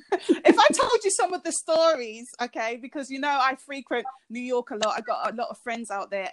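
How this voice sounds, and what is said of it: East London British accent. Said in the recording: “I'm from the UK, from a part of London called East London ... your accent just do something to me”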